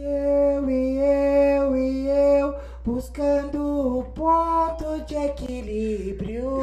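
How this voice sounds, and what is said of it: Imitates a band's singing voice. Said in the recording (Portuguese): “Agora imita o ponto de equilíbrio ... quero ver essa imitação”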